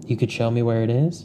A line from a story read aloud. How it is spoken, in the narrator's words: he asks